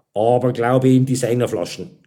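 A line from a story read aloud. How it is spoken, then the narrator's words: Grunted. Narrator (German): grunzte der Knickel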